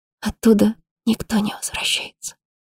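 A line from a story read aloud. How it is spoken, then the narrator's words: Whispered. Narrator (Russian): прошептала она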